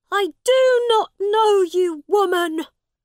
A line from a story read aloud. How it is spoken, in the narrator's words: Tom shouted at his mother